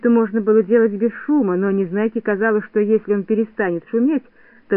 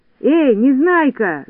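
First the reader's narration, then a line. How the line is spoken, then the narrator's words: Shout. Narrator (Russian): закричал Винтик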